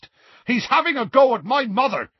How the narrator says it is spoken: Seamus yelled

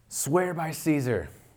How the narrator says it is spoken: the governor shouted

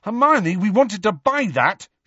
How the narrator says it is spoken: shouted Ron

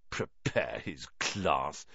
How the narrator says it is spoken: Ron sneered after him

